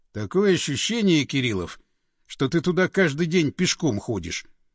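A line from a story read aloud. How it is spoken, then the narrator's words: Mocking snort. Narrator (Russian): хмыкнул Андреев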